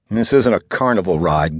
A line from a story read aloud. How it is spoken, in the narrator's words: Greg mumbled